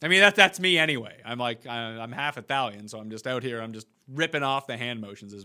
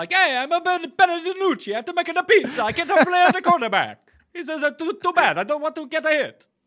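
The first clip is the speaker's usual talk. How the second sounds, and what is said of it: Bad put-on Italian accent. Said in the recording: “That was a really bad Italian accent.”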